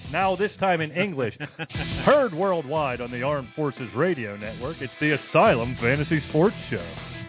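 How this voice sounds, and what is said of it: Smooth radio announcer voice. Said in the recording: “smooth intro ... radio voice”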